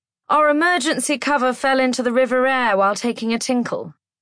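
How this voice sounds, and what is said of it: Booming posh English accent. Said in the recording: “booms a posh English accent”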